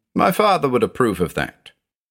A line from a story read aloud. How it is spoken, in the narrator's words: chuckled, saying